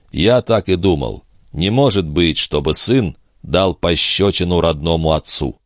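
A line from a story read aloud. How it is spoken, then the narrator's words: Quiet speech. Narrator (Russian): негромко произнес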